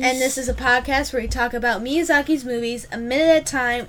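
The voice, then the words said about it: Strained, slightly deeper worn-out voice. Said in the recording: “My voice just dropped, like a little bit. It's, like, slightly deeper. ... both our voices are, like, obliterated because you were doing this voice that just completely destroys your throat.”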